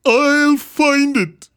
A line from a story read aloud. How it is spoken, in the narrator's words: cried Horton